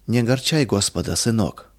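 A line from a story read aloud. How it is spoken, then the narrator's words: Gentle. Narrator (Russian): мягко сказала она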